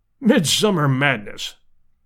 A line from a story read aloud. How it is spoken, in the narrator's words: snorted Summerlee